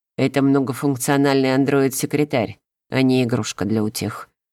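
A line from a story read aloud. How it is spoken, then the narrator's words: Cold statement. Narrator (Russian): холодно заявил Нат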